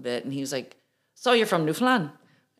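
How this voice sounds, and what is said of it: Bad put-on Irish accent. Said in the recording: “That's the worst Irish accent ever.”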